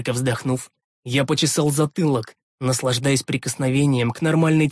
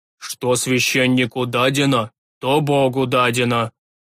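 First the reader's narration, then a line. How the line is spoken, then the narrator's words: Old man growling. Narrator (Russian): Рыкнул высокий старик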